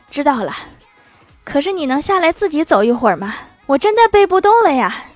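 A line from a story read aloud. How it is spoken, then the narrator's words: Out of breath. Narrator (Chinese): 郭大侠气喘吁吁地说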